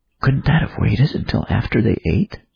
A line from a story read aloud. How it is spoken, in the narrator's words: Abigail chuckled